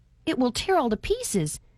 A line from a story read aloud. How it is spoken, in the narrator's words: exclaimed Reuben